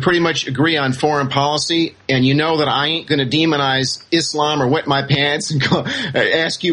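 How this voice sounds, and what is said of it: Usual voice. Nothing is said of it.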